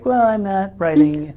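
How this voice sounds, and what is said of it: Impression of the guest's voice. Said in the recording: “That's my impersonation of your voice. Is that flattering? Well, that's what the world hears when you talk.”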